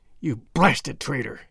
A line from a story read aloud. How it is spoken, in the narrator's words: hissed McGinty through his closed teeth